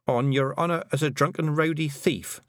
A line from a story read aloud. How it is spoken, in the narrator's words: said Tiffany